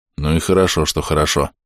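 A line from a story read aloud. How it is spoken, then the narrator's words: Mumbling. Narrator (Russian): пробормотал я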